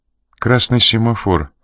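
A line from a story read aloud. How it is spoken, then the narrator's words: Calm statement. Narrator (Russian): спокойно сообщила Жанна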